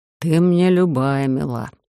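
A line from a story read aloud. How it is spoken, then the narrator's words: Embarrassed grumble. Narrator (Russian): сконфуженно проворчал шеф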